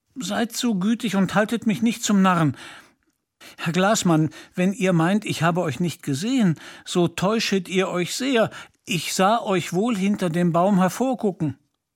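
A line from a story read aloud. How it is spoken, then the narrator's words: Hesitant call. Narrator (German): rief nach einigem Zögern Peter Munk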